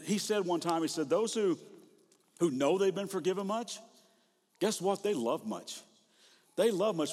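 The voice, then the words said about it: Kentucky accent. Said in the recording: “I'm from Kentucky. You think my accent's weird?”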